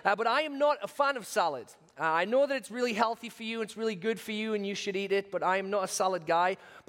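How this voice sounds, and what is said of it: British accent. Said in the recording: “my British accent ... me saying the word solid. I'm saying salad ... my Britishness”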